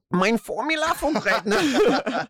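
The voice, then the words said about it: Put-on German accent. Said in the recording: “your best German accent”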